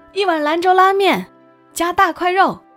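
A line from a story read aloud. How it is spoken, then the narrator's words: Boss calling toward kitchen. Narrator (Chinese): 老板必然朝后厨喊一声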